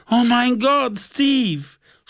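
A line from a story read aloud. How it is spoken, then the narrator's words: Sobbing outburst. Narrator (German): schluchzte er auf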